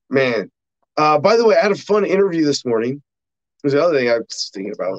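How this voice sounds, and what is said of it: Slightly rough voice. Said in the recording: “My voice is a little rough from a long travel day yesterday”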